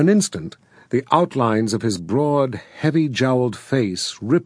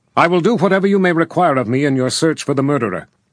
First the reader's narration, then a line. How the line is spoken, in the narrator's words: said, rapping the table sharply to underscore his words